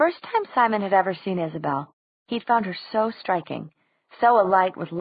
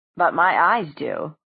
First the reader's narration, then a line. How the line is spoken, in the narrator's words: said a coolly amused voice